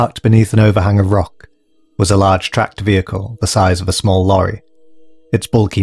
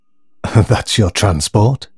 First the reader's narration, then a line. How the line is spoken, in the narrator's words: gasped Alex